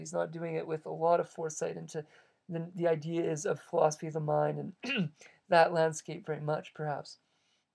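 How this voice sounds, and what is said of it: Strained, failing voice. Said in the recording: “losing my voice ... my voice is starting to go”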